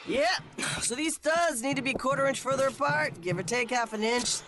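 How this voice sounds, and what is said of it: Character voice of a home inspector. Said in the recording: “my impression of a home inspector who needs friends”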